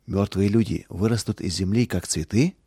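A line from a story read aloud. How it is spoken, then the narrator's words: Quiet question. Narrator (Russian): Роланд тихо спросил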